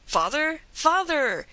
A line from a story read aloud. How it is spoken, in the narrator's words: exclaimed a piercing cry from out the mist